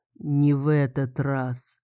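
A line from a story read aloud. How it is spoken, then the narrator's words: Low booming drone. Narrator (Russian): прогудела она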